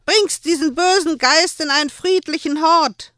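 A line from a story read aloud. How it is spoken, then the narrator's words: Screaming at someone. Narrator (German): schrie sie Joel an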